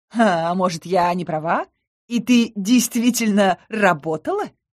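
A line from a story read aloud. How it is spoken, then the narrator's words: Laughing. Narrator (Russian): Камила засмеялась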